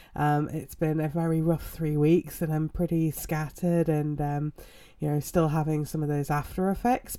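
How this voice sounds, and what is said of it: Weird-sounding voice, throat clearing. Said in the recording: “my voice sounds weird or any coughing or throat clearing”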